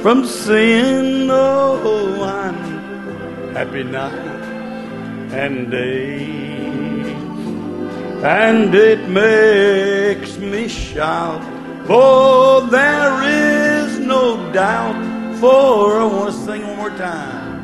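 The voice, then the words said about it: Slightly hoarse singing voice. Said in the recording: “I'm a little bit hoarse, been out in the cold last night”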